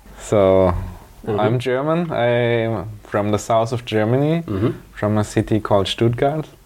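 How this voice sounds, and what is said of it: Slightly foreign accent. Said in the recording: “your accent is a bit foreign”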